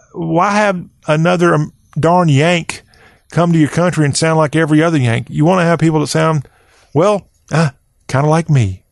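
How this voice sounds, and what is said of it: Mild Southern US accent. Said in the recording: “there's people out there who win the award for being a whole lot more southern in their speech than me ... a little bit of southern in you and in your accent”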